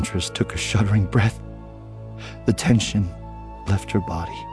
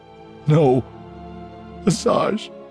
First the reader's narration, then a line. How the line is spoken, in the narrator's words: Voss begged